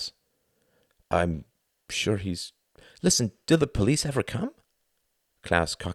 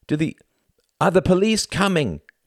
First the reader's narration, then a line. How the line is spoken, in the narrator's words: shouted Tom